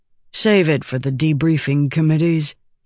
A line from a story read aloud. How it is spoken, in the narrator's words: he murmured